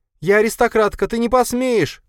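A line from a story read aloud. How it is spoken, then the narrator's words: Shouting while struggling. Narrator (Russian): кричала Марина, пытаясь отбиваться от Бориса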